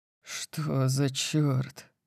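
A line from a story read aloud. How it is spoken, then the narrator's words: Breathed out. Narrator (Russian): выдохнул я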